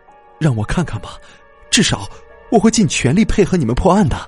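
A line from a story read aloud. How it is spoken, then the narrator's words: Pleading. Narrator (Chinese): 王清林哀求道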